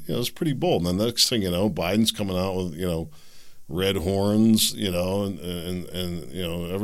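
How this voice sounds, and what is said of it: Usual voice. Nothing is said of it.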